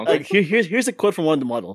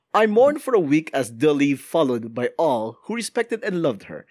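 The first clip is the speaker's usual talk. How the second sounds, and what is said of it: Put-on accent. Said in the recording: “are you doing that in accent, by the way? ... doing an accent right now?”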